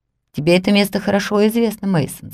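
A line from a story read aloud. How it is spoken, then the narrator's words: Plain. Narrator (Russian): сказал наш проводник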